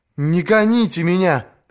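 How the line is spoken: Pleading. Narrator (Russian): взмолилась она

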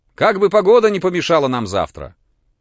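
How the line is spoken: Shouted after someone. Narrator (Russian): фон Корн крикнул ему

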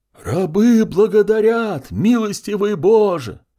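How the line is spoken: Crowd shouting. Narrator (Russian): закричала вся его паства

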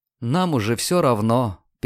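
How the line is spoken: Sad, smiling. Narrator (Russian): печально улыбнулась

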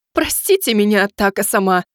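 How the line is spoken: Cook's timid babbling. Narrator (Russian): принялась лепетать повариху

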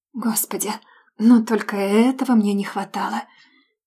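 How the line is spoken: Nervous sigh. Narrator (Russian): Нервно вздохнула

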